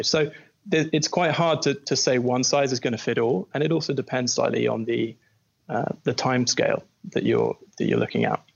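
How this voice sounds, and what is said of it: British English accent. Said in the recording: “you obviously do not have a San Fran accent. Seems like you're from over the pond in Brexit land. That's what it sounds like to me”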